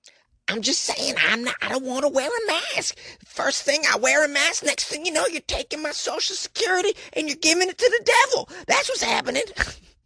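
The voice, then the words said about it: Impression of an unhinged Florida woman. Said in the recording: “trying to do an impression of an insane Florida woman.”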